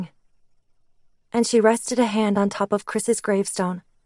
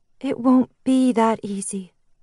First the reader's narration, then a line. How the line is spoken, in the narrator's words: Nick said sadly